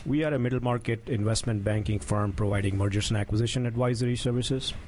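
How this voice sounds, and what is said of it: Indian accent. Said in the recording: “Where's the accent from? Where are you from originally? ... From India.”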